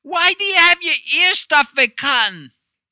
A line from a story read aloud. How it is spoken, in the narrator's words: She yelled it so loud, any astronauts on the moon could hear it, even if they had a hearing problem